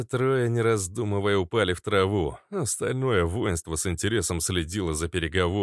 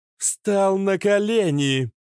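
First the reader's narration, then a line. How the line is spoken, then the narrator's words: Ringing metallic commanding voice. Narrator (Russian): звенящим металлическим голосом произнесла Иштар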